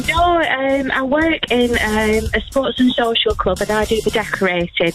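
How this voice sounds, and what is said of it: Preston Lancashire accent. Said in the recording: “You sound like you're from... Are you from Preston? ... I can tell an accent from a mile off”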